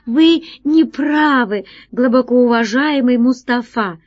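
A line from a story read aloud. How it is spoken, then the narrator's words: Exclamation. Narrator (Russian): воскликнула она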